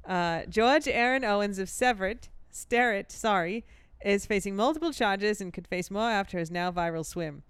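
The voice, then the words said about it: Put-on Boston accent. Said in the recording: “Should I try this in the Boston accent, which is getting better?”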